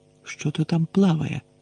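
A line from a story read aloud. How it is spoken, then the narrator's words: Whispered. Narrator (Ukrainian): прошепотів Рон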